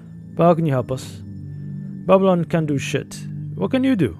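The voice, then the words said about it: Put-on American accent. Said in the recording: “with an American accent”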